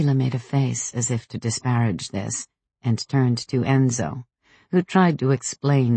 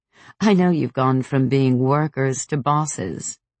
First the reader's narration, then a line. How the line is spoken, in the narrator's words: said, laughing